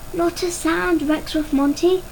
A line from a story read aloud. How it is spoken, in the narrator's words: whispered